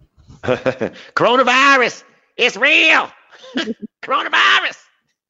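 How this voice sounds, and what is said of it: Imitates another person's voice. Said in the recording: “Can you do that impersonation one more time?”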